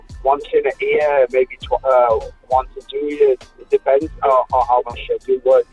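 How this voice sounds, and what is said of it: Indian accent. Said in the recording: “I can't make out your accent ... I'm from India, actually.”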